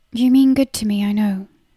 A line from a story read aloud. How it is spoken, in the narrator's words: she said in a tight voice